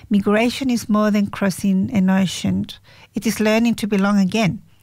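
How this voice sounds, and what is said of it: Chilean-accented English. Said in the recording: “I'm still Chilean ... we carry it in our accents”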